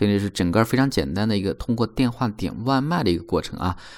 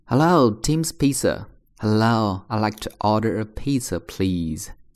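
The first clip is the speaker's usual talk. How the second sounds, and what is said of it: Slow, deliberate reading pace. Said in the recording (Chinese): “我再重新去放慢的速度读一遍”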